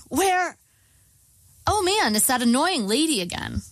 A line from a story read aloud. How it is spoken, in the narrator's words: I said brightly, trying to defuse the situation